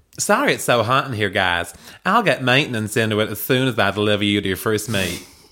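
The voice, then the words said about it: Put-on American accent, badly done. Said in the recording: “I'm genuinely wowed by the accent ... I want him to read the whole book in this accent ... It's actually quite hard to do ... You were fucking shit ... I was really bad. I do want to apologise to all of our American listeners”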